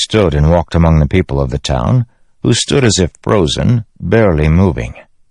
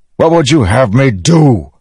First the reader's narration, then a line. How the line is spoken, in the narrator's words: Dalinar shouted